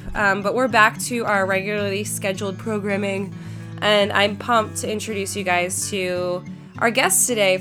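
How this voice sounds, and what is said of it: Congested, stuffy voice. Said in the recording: “I got a really nasty flu. Some of you guys who've been listening can probably tell by the amount of congestion that I have”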